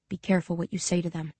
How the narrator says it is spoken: he whispers

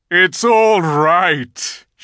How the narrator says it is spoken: shouted Aslan joyously

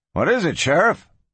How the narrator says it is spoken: Skelly asked nervously

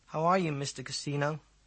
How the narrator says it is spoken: asked in the same flat voice

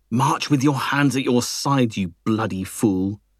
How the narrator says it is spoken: hissed Lutine

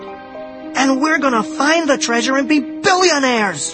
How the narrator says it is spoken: I cried

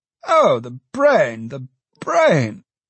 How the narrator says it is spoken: exclaimed the pious alderman

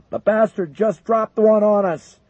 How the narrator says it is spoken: McConnell barked orders

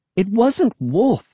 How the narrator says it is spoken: I cried

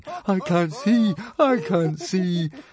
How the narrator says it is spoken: moaning

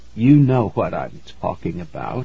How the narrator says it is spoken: Morgo said softly

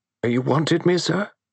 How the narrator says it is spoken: It was the butler's voice, still quavering and uncertain

